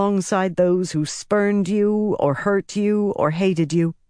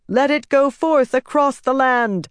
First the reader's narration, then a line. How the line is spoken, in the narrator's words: she shouted